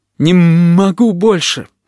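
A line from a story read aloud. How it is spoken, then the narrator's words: Whining. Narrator (Russian): скулил Плакса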